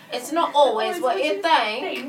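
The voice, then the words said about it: Imitating a friend's accented voice. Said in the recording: “everything that comes... from his voice has an accent.”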